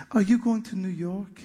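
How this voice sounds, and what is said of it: Sweet French-accented woman's voice. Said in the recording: “she said in a very sweet French accent”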